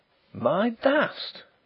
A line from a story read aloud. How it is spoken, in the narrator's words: gasped Draycott